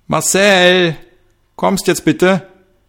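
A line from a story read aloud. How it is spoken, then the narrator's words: Woman's sudden shout. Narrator (German): schrie auf einmal eine Frau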